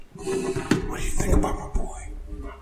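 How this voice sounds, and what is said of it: Whispering. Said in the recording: “Why are we whispering? Into the mic.”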